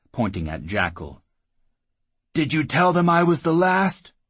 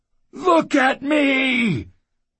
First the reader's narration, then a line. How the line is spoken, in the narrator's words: the Claymaster roared